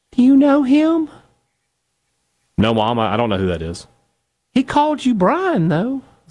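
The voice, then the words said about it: Imitating his mother's voice. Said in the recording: “I'm going to do my mom impression here.”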